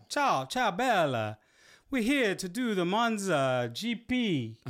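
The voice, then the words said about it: Put-on Italian accent. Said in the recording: “Let's not do the accent. ... Oh, don't do the accent.”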